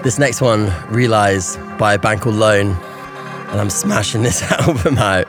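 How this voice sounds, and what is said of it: Strained, hoarse voice. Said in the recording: “I'm losing my voice because I'm singing”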